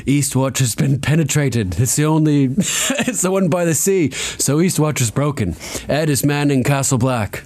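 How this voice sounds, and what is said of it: Put-on accent. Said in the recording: “Insert your best accent.”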